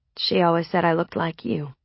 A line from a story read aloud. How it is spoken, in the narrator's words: I mumbled